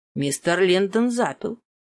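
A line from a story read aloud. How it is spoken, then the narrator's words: Calm statement. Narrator (Russian): спокойно заявил Эдмунд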